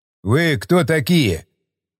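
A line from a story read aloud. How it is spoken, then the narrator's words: Stern question. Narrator (Russian): строго спросил Баграмян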